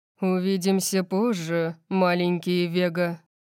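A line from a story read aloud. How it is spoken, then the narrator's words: Purred. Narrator (Russian): промурлыкал он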